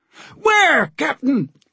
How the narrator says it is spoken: the helmsman shouted

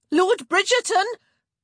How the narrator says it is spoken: Kate called out again

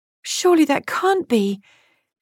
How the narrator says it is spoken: Kitty gasped

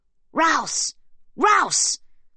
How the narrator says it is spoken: is screamed into the room

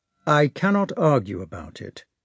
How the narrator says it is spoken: replied Prince Andrei coldly

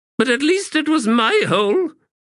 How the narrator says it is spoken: Precious snapped

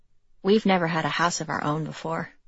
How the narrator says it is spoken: she said

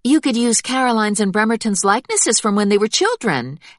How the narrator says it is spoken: Helen suggested in a peppery tone

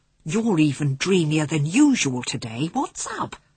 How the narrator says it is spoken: Patrick leant over and whispered

